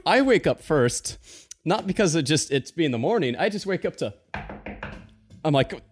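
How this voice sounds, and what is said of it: Usual voice. Nothing is said of it.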